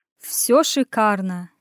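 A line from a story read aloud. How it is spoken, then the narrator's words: Sarcastic drawl, muttered. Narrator (Russian): не скрывая сарказма, протянул я, буркнул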